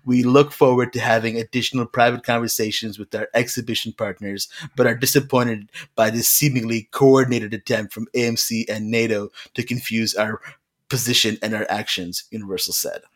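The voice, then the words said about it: Nasal imitation of another person's voice. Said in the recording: “Was that Trump reading that statement? ... Was that your like Trump impression? It sounded a bit like Trump ... there's a bit of that nasalness to it”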